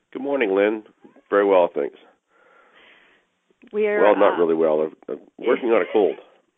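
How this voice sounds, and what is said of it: Very deep voice from a cold. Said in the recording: “he was working on his deep radio voice ... he had a very deep voice dealing with the cold”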